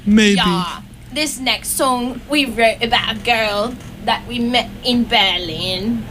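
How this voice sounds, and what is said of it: Put-on British accent. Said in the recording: “I'm practicing my British accent now ... Guys, that's kind of impressive.”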